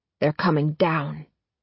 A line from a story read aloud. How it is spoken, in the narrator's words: Adam hisses in warning